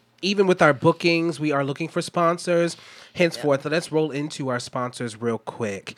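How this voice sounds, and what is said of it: Slightly rough, strained voice. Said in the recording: “my voice is a little messed up”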